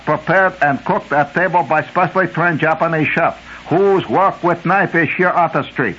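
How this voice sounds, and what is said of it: Bad put-on Japanese accent. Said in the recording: “do in Japanese accent. That's terrible.”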